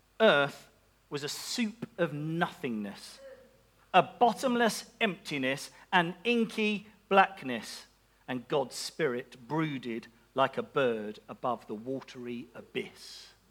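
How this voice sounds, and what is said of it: Put-on Scottish accent. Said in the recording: “Definite Scottish accent for that one.”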